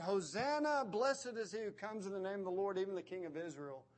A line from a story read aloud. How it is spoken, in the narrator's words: yelling out